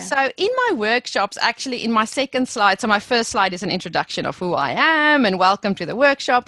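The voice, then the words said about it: South African accent. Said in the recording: “I will never lose my South African accent”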